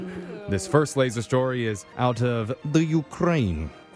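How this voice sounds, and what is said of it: Put-on Ukrainian accent. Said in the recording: “Was that a Ukrainian accent, sir? ... Count Dracula.”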